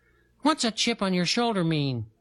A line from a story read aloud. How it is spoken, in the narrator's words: Dragonfly had piped up and asked